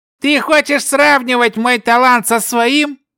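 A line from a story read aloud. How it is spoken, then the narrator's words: Sudden shout. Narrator (Russian): вдруг закричал заклинатель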